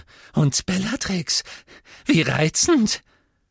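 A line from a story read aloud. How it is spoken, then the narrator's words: Squeaky voice. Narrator (German): sagte er mit quiekender Stimme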